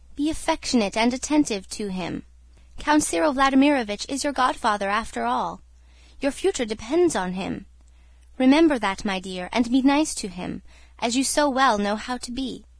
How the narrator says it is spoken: said the mother, timidly and tenderly

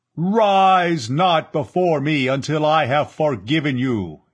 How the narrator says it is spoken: Yat-Zar thundered

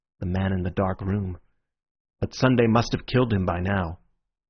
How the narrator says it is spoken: said Syme in a low voice

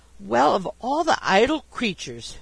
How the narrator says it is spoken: she exclaimed

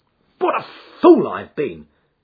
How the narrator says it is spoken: he cried

